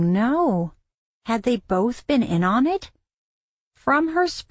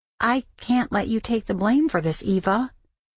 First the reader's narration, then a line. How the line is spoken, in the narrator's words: In a gentle voice, he said